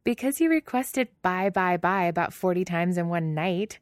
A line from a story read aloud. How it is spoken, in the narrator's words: Selena laughs